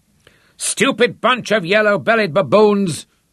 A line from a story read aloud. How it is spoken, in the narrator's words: he bellowed in frustration